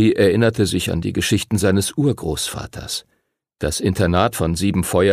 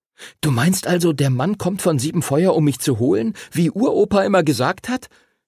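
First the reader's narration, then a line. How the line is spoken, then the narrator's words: Excited question. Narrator (German): fragte Henry aufgeregt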